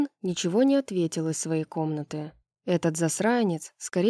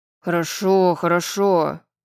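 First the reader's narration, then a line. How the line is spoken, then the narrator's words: Groaned. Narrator (Russian): Простонал Рун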